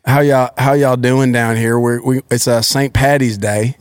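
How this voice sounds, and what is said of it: Put-on Southern accent. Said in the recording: “Southern.”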